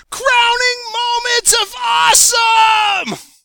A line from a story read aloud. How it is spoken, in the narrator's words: I screamed at the top of my lungs